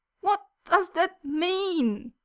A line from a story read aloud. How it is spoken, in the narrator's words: Yuri wails in utter confusion